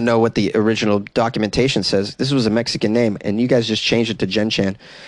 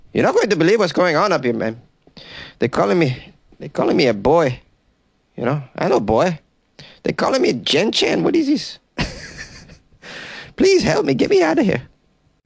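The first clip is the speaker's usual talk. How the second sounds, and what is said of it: Put-on Mexican accent. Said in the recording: “Hippo got a Mexican accent, though.”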